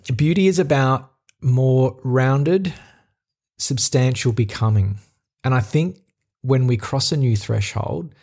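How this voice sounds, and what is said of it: Australian accent. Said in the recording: “I'll butcher it with my Australian accent.”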